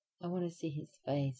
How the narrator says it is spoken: whimpered

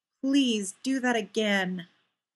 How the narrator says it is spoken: Benny said tightly

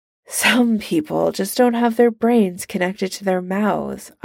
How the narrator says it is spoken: Iron Man sighs

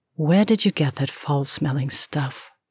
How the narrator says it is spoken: she said

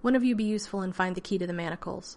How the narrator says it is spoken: Van Ryn said sharply

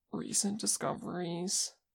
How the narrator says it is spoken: Kim croaked

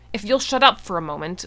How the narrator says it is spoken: MacLeod said fiercely

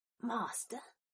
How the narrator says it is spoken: Black whispered in outrage

